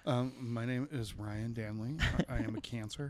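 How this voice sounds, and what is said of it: Mock public-radio announcer voice. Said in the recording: “NPR voice”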